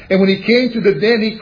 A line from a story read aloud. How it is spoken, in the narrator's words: he cried with a lamentable voice unto Daniel